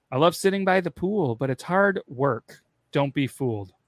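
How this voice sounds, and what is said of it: Impression of a reality TV woman. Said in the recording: “That was my impression of her.”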